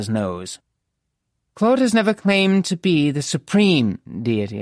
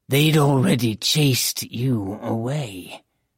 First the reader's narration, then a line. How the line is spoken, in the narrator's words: Zena growled